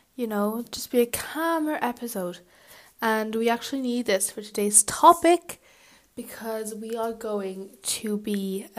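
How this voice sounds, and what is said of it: Tired, low-energy voice. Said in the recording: “I'm a bit tired tonight ... if I sound a bit tired ... you guys kind of like when I'm full of energy”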